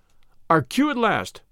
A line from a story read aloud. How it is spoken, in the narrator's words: cried Valentine